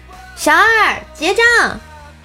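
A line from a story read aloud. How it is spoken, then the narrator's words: Shouted. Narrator (Chinese): 大喊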